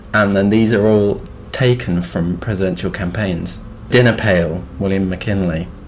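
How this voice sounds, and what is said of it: Fancy-sounding accent. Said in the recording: “it's because of your fancy accent. I thought you said poked.”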